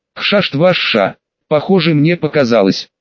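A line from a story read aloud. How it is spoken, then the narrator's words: Dry. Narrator (Russian): сказала сухо ректор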